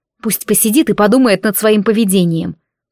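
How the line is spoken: Grumbling. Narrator (Russian): проворчала

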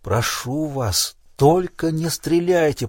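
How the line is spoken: Whisper. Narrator (Russian): прошептал он

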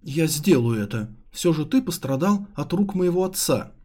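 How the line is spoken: Exclaiming. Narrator (Russian): воскликнула Цзи Юнь

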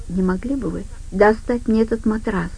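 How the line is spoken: Soft question. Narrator (Russian): мягко спросила Джуна

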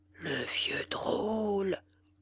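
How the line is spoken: Murmured. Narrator (French): murmura Holly

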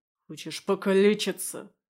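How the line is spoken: Anxious growl. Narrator (Russian): рыкнул я, чувствуя, как внутри все сжалось

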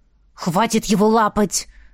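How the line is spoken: Hissed. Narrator (Russian): зашипел Кай

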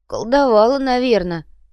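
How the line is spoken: Moaning. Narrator (Russian): простонал оставшийся без поддержки Инций

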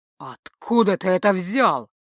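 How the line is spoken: Growled. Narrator (Russian): прорычал

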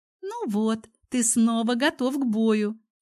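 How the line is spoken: Giggling. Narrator (Russian): хихикнула она

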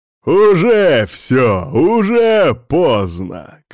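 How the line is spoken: Spiteful smirking tone. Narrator (Russian): как-то злобно усмехнулся

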